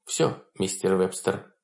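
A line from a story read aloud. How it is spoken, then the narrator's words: Soft. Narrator (Russian): произнесла она мягко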